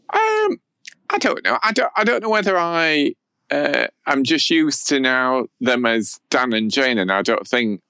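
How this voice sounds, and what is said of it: Strong South Yorkshire accent. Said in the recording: “South Yorkshire accent ... your Yorkshire accent's much stronger than mine ... very very flat”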